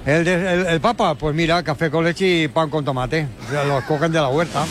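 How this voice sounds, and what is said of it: Put-on Catalan accent. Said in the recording (Spanish): “Y tiene acento catalán ... Me encanta que tenga el Papa acento catalán”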